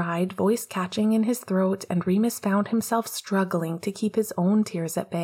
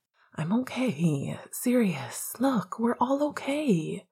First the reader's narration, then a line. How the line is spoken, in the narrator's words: Remus whispered in return